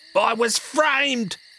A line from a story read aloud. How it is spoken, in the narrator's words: He screamed